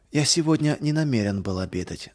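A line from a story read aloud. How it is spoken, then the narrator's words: Plain. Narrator (Russian): ответил я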